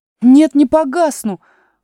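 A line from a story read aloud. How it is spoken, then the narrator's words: Indignant shout. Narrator (Russian): возмущенно крикнула Алиса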